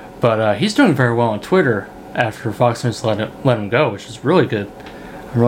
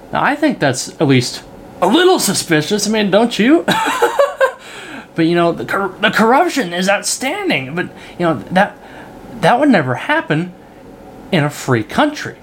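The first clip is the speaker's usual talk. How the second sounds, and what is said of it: Tucker Carlson impression. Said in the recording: “excuse my Tucker Carlson impression, I'm still working on it”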